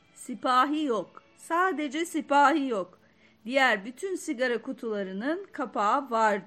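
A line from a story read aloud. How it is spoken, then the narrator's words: Shouting. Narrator (Turkish): diye bağırıyorum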